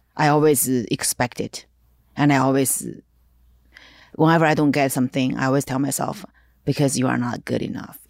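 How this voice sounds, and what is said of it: Non-native English accent. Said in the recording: “you are Asian woman ... They will forget you have this accent ... They will forget that you are an immigrant ... they don't understand my English”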